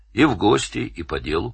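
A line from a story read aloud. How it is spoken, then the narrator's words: Plain. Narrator (Russian): сказал Данил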